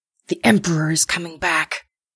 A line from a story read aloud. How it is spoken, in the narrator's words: Onaz hissed to Nanka